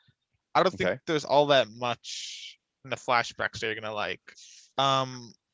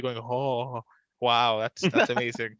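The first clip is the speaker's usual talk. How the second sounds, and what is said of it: Imitates another person's voice. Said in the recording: “really good impression.”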